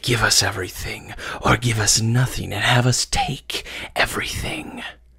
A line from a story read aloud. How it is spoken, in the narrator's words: they hissed